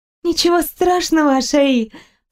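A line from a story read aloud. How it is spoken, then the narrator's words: Faltering babble. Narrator (Russian): пролепетала я в ответ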